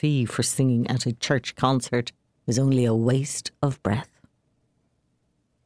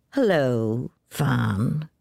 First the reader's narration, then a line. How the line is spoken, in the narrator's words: drawled Jim